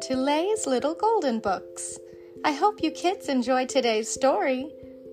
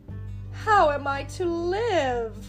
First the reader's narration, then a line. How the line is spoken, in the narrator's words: cried the poor lad